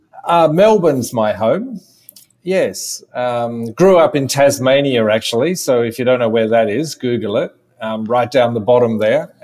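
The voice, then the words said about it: Australian accent. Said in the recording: “You are not from New York, as somebody can hear eventually from your accent. ... I'm an Australian”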